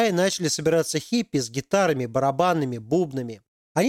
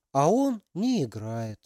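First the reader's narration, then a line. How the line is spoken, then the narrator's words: Sigh. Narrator (Russian): вздохнула Алиса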